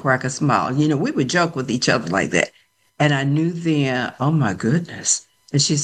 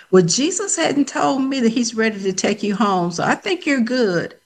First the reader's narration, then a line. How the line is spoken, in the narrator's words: laughed and I said